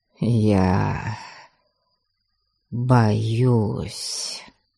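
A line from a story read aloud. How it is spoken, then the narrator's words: Choked, strained after pause. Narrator (Russian): он словно подавился, закашлялся и после долгой паузы буквально выдавил из себя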